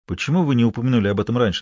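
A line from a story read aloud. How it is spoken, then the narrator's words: Plain question. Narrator (Russian): спросил Фалькон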